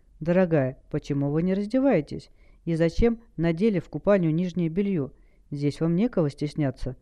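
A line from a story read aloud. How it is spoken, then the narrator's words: Pleasant low womanly laugh. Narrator (Russian): Женщина рассмеялась приятным низким смехом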